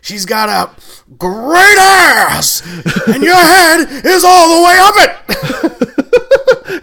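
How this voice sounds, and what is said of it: Imitation of an actor's yelling voice. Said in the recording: “decent Pacino”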